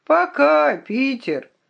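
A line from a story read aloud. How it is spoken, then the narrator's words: Hoarse reply from upstairs. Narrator (Russian): Из спальни на втором этаже донесся хриплый ответ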